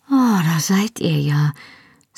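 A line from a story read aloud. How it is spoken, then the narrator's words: Deep sigh of relief. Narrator (German): sagte mit einem tiefen Seufzer der Erleichterung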